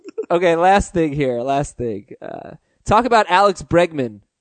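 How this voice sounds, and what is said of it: Usual voice. Nothing is said of it.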